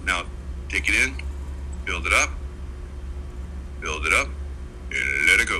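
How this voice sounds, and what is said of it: Deep voice. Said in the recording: “You like that deep voice?”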